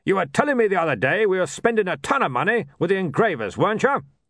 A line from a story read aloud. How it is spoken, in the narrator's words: He barked